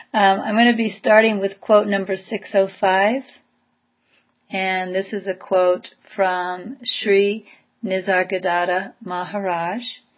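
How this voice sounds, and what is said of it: Tired-sounding voice. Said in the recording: “I'm a little tired. I don't know if you can hear that in my voice.”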